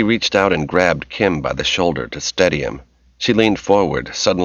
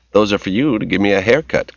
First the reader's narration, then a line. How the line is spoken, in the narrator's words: Kim said